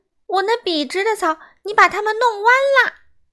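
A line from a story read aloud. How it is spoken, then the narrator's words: Indignant cry. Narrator (Chinese): 挑剔先生叫起来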